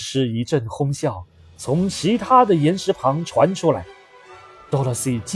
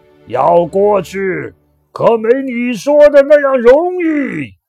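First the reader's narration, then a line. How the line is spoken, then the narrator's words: Loud wild laughter. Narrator (Chinese): 那个怪人大声狂笑着，嘴里说着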